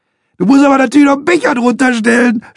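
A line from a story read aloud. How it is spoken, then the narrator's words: Shouting through laughter. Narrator (German): schreit Dotto und lacht sich kaputt über seinen eigenen Witz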